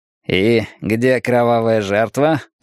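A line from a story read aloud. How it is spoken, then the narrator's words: Grumbled. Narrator (Russian): пробурчал Бротонс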